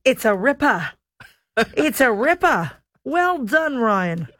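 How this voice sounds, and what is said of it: Attempted Australian accent. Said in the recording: “My Australian accent is absolutely abysmal ... I'm trying to craft my Australian accent ... That was pretty good ... That was pretty bad”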